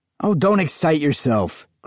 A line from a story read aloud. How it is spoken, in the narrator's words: Graeber said angrily